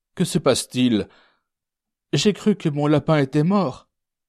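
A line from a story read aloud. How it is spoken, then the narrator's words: Moaning. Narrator (French): gémit-elle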